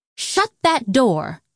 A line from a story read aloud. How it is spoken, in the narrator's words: Elphaba snapped